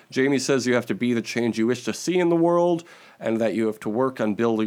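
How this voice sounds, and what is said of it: Usual voice. Nothing is said of it.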